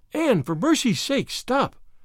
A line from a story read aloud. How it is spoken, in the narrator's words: panted poor Diana